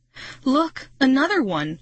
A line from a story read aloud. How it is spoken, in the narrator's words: Marty cried